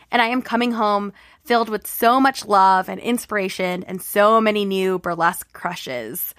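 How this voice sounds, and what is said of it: Slightly raspy voice. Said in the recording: “my voice sounds a little extra raspy... my voice wasn't 100%”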